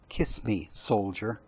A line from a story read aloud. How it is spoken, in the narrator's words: she repeated, the last word quietly but distinctly